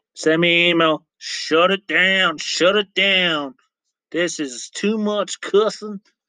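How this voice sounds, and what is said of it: Put-on Southern accent. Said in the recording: “I don't know why I did a southern accent right there”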